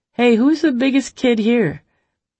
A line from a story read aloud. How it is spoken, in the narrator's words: called out from the shade